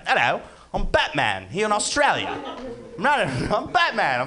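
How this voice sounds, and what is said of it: Put-on Australian accent. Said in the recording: “I decided that I was going to try to be Australian. ... talking like an Australian.”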